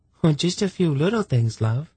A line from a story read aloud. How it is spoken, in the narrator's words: she said sweetly